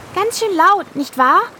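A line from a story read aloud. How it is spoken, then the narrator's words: Called out. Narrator (German): rief Hildegard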